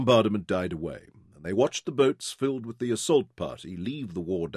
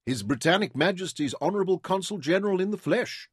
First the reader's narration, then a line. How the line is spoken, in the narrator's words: Dorian exclaimed